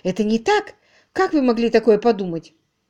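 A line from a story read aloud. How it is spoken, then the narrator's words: Louder emotional exclamation. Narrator (Russian): громче и с чувством воскликнула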